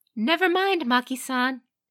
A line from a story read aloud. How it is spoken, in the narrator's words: called out